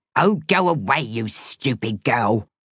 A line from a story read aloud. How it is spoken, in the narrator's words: snarled